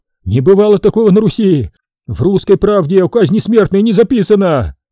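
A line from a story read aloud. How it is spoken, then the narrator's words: Shouting. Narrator (Russian): крикнул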